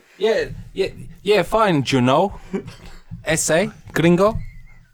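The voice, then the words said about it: Put-on weird Mexican accent. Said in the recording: “why are you doing a weird accent? ... I thought I'd give this whole Mexican thing a try ... how to do a Mexican accent ... He's actually the worst Mexican ... you don't have to put on an accent”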